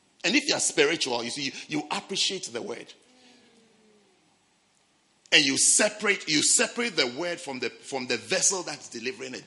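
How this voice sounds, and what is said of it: Speaks with a foreign accent. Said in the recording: “I'm speaking with a certain accent because of the vessel that it's coming out of. You can't force me to change my accent.”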